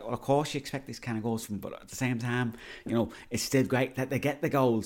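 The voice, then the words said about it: Put-on Liverpool accent. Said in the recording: “I know Gary Neville is not from Liverpool, but that's the only accent I can do.”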